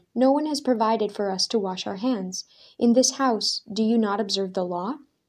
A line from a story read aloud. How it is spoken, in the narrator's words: The woman of the house gasped, hand against her mouth in dismay